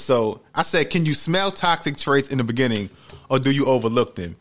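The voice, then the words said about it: New York accent. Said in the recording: “your accent, like your New York accent ... oh, this is New York”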